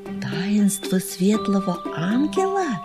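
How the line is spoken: Enchanted whisper, young creature. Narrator (Russian): завороженно прошептал бельчонок летучий

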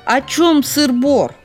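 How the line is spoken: Shout. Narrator (Russian): крикнул

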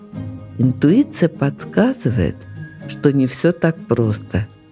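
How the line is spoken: Quiet. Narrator (Russian): тихо сказала

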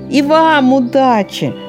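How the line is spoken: Near shout, upward. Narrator (Russian): почти крикнул в вышину

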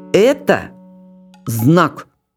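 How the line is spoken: Loud. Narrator (Russian): громко сказал Демис

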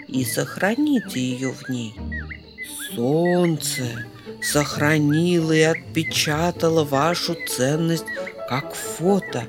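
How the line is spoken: Mysterious, small squirrel. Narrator (Russian): загадочным голосом подытожил бельчонок

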